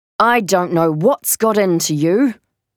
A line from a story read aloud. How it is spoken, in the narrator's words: Dad grumbled